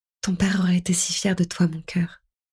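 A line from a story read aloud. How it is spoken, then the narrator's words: Whisper. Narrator (French): chuchotai-je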